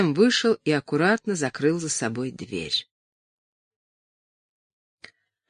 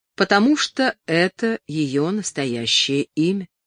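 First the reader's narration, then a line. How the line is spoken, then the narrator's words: Plain. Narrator (Russian): ответил Эдуард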